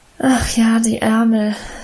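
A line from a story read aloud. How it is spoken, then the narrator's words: Sigh. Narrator (German): seufzte Emma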